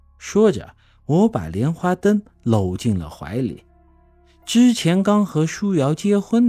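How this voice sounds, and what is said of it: Usual voice. Nothing is said of it.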